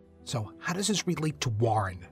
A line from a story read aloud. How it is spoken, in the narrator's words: Jay snapped